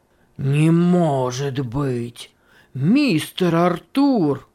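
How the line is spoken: Exclaiming. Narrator (Russian): воскликнул Симонс

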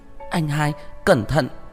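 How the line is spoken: Panicked cry. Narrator (Vietnamese): Nhã Thanh kêu lên trong hoảng hốt

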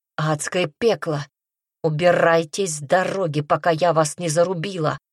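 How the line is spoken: Growling. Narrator (Russian): прорычала она

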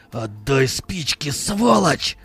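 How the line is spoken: Growled. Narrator (Russian): Зарычал он

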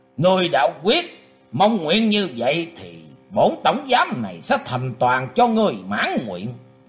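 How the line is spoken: Old man, harsh voice. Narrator (Vietnamese): lão ... gằn giọng nói tiếp

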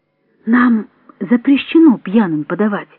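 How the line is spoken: Quiet explanation. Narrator (Russian): тихо объяснила она

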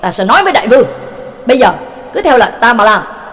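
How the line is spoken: Furious shout. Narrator (Vietnamese): Quách Nhật Niệm Thanh tức tối hét lên

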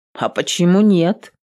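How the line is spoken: Grumbling. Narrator (Russian): проворчала Адель

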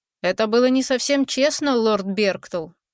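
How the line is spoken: Reproachful, regal. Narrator (Russian): осуждающим тоном сказал король

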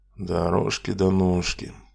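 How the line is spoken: Muttering. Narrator (Russian): пробормотал я

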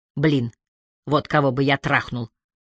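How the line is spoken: Muttering. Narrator (Russian): пробормотал Пол

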